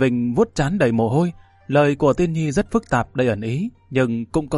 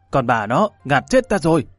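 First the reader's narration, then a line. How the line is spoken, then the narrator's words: Breathless loud shout. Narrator (Vietnamese): hắn hít một hơi thật dài, hét lớn một tiếng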